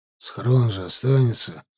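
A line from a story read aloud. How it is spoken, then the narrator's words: Grumbling. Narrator (Russian): буркнул тот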